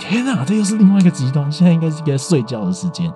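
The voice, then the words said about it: Quiet, deliberately lowered voice. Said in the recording (Chinese): “所以我现在讲话才会非常小声，因为我怕吵我家人 ... 有刻意在放低音量 ... 所以我不敢讲太大声”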